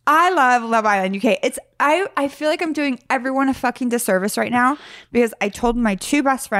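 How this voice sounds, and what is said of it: Usual voice. Nothing is said of it.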